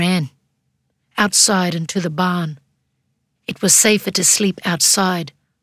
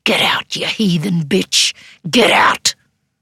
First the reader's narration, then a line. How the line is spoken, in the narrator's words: the old woman was quick to turn sharply hissed